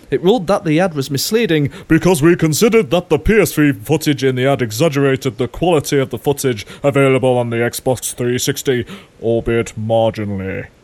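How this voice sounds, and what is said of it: Mock authoritative official voice. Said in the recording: “my impersonation ... I was trying to sound all authoritative.”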